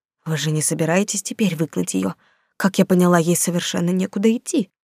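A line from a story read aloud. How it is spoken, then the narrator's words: Whisper. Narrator (Russian): продолжила шепотом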